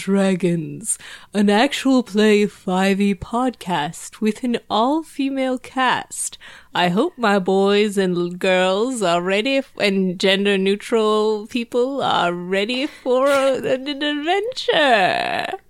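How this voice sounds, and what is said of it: Congested, stuffy voice. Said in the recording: “you sound kind of congested ... I have a cold”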